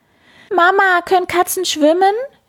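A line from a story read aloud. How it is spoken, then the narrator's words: Shouting. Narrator (German): schreit Karlchen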